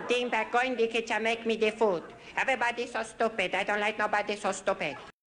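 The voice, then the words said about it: High-pitched voice, heavy odd foreign accent. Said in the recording (Chinese): “Foreign Man 这个角色来自安迪虚构的一个里海的国家 ... 他的声音也非常有特色，是一个非常尖的嗓音，而且带着特别浓重的一个怪异的口音 ... 说话就扁扁的”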